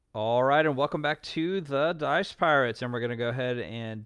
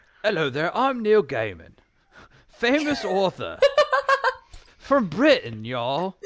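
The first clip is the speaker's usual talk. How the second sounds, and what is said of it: Unconvincing put-on British accent. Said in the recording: “What world is that a British accent? ... This is a British accent”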